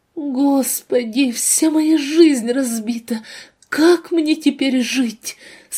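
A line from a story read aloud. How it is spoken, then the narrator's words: Whispering through sobs. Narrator (Russian): Сквозь нахлынувшие с новой силой рыдания шептала молодая женщина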